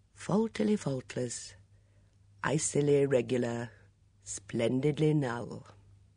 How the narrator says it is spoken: He quoted softly

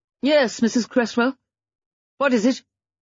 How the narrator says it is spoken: she said sharply

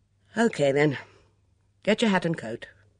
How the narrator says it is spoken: he sighed and said

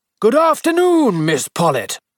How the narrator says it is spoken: Miss Hartnell, jolly, weather-beaten, 55, shouted out in her usual loud bass voice

